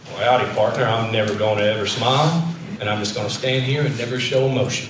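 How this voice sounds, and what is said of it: John Wayne impression, cowboy drawl. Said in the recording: “a John Wayne kind of masculinity ... It's a pretty good John Wayne accent.”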